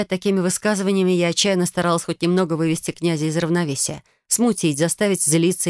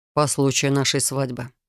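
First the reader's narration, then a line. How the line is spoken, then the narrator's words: Calm explanation. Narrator (Russian): спокойно пояснил он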